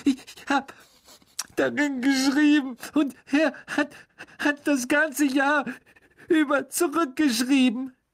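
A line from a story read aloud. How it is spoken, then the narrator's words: Sobbing. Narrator (German): schluchzte Ginny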